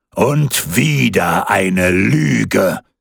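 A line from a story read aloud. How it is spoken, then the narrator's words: Thunderous voice. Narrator (German): rief der Holländer Michel mit donnernder Stimme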